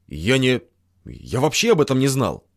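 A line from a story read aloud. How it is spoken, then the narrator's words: Mumble. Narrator (Russian): пробормотал тот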